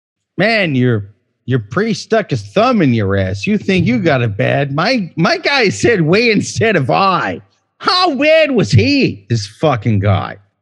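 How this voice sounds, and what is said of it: Passable Boston accent, slurred words. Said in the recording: “you went with a Boston accent? ... me slurring my words because I'm drunk ... it sounded like a not bad Boston. Not a great one”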